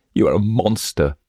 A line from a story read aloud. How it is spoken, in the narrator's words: exclaimed Lisa, drying her eyes